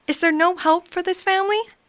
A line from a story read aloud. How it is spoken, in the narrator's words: pleaded Scrooge